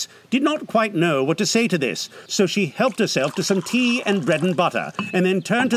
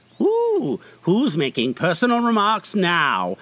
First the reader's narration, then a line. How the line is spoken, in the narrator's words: The Hatter asked triumphantly